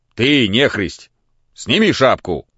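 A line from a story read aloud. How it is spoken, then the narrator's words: Rude. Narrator (Russian): сказал он грубо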